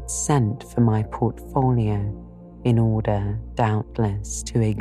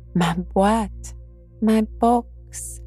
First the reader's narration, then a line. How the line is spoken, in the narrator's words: exclaimed she, running towards it